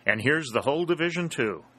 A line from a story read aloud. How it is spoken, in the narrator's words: exclaimed Dalton